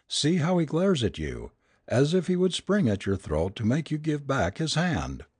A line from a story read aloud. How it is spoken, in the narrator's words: cried, laughing